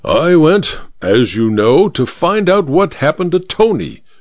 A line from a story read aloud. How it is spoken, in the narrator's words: said the judge through gritted teeth